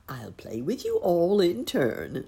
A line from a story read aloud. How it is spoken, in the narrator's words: laughed the bunny gentleman